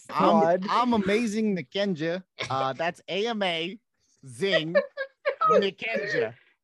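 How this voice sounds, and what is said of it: Put-on Brooklyn accent. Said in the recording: “plug yourself in your Brooklyn accents”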